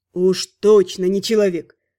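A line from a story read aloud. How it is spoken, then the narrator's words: Mage snorting. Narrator (Russian): фыркнул маг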